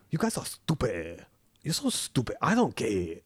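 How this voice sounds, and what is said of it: Exaggerated fake Chinese accent. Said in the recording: “cliche hack Chinese accent ... An exaggerated, you know.”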